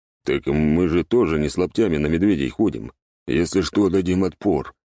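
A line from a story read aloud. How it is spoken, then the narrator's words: Grumbling. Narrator (Russian): проворчал сектор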